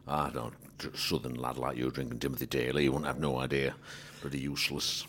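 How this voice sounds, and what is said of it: Put-on Yorkshire accent. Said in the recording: “can you do a Yorkshire impression?”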